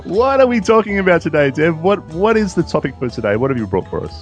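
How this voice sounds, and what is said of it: Non-American foreign accent. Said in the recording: “to me as an American, you already sound more intelligent because of your accent ... the intelligence that oozes from my accent”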